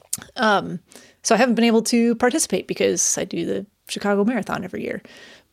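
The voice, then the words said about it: Hoarse, fading voice. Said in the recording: “I'm losing my voice... A lot of talking today.”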